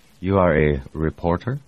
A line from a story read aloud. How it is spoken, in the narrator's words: Brumado asked